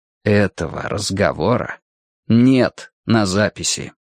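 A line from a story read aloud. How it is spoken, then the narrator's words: Slow, solemn, deliberate. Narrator (Russian): произнес Гурни медленно, словно каждое слово было важным заклятием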